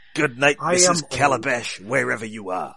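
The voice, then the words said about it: Imitates another person's voice. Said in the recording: “my Jimmy Durante impression”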